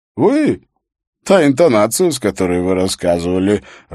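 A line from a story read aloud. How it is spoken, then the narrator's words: Laughing. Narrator (Russian): рассмеялся Лёкин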